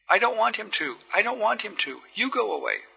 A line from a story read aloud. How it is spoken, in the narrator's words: cried the girl